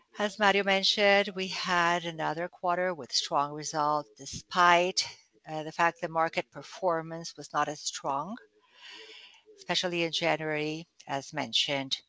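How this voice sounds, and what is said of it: Hoarse voice. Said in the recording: “Apologies for my voice. I'm hoarse today.”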